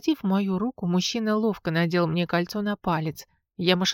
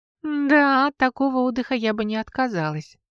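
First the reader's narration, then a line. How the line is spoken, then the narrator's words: Laughing. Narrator (Russian): рассмеялась я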